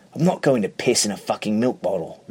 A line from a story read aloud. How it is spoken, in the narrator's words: Richard snaps